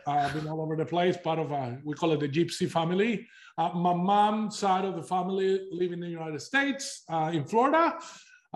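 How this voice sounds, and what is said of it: Non-Australian accent. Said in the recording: “as you can tell by my accent, you know, wasn't born in Australia”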